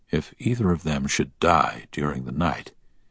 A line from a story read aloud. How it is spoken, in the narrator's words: he heard the doctor whisper to the nurse